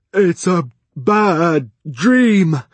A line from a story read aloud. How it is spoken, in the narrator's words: he wailed